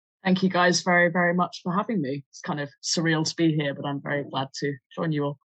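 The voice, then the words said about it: Northern English accent, Lancashire. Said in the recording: “it's good to hear a good Northern accent as well. I know you said it's a hybrid, but I'm taking it as Northern. ... even if it's the wrong side of the Pennines and it's Lancashire”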